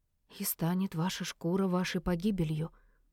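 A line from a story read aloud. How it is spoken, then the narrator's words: Barely audible. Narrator (Russian): едва слышно сказала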